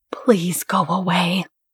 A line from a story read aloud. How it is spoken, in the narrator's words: whispered